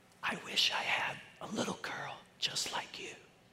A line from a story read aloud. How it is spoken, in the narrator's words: Leonard whispered